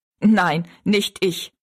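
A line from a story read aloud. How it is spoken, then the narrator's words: Laughing. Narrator (German): sagte Jinx und lachte wieder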